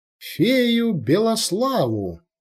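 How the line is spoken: Happy squeal. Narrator (Russian): Счастливая девушка радостно завизжала

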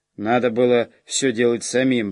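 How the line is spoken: Grumbling under breath. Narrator (Russian): пробурчал себе под нос Норм

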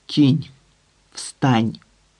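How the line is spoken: Quiet, furious request. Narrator (Ukrainian): тихо й люто попросив Данко

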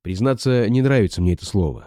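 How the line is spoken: Plain. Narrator (Russian): сказал я

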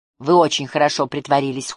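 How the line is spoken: Coldly remarked, female. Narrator (Russian): холодно заметила она

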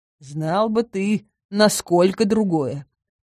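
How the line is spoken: Chuckling to himself. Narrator (Russian): про себя хохотнул Кайл

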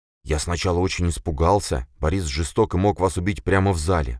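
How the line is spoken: Servant mumbling. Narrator (Russian): пробормотал слуга

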